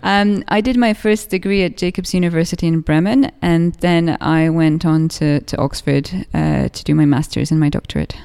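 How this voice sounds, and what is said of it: English accent. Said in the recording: “You've got a wonderful English accent. ... You must have got that at Oxford.”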